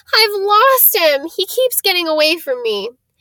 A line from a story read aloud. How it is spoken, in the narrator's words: he wailed